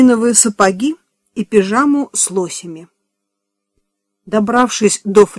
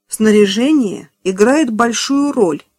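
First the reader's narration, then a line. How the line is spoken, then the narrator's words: Plain. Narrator (Russian): сказала она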